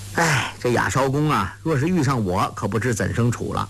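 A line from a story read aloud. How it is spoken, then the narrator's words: Sigh. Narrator (Chinese): 郭靖叹道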